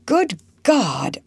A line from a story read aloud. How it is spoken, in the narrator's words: exclaimed, springing up